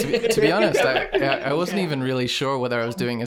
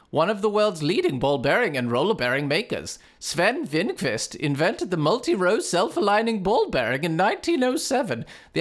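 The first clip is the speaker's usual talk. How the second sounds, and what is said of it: Exaggerated stereotyped Swedish accent. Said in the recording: “The accent really changed halfway through. ... It went worse and worse, as in more and more stereotyped Swedish. ... a Swedish accent”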